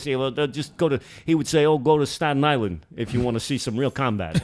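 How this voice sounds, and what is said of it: Put-on accent, done well. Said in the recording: “a good accent. I had no idea. ... trying to stay in character here”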